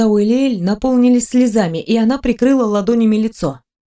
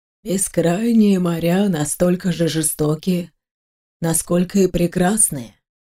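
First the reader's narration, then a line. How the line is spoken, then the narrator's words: Quiet. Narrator (Russian): тихо произнес Карсентер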